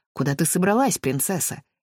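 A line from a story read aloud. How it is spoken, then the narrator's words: Defiant tone. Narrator (Russian): Паулу по-прежнему говорил вызывающим тоном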